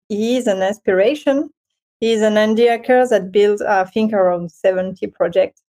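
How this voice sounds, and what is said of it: Non-native English accent. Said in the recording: “Sorry for the English accent”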